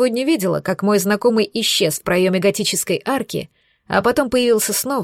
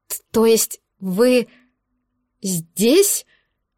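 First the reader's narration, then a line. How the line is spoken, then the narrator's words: Stammering, babbling woman. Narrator (Russian): Заикаясь, пролепетала она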